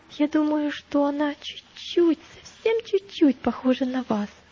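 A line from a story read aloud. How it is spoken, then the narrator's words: Timid. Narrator (Russian): сказал христианин робко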